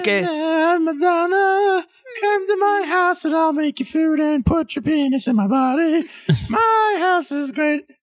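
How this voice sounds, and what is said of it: Singing, imitates another person's voice. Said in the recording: “your beautiful singing Madonna impersonation”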